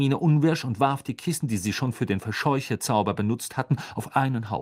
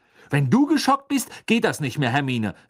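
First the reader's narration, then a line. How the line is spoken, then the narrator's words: Angry speech. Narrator (German): sagte Ron wütend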